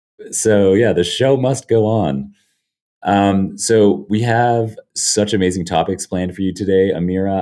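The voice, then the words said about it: Sick, very deep voice. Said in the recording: “my very sick, very deep voice ... my hacking coughs”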